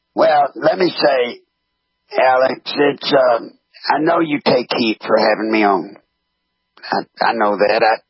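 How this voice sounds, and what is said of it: Very raspy voice. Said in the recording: “I didn't know I had a distinctive voice ... I got a raspy voice, too, but nothing like yours”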